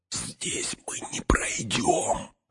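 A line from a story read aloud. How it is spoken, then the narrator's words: Whisper. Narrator (Russian): шепнул Фродо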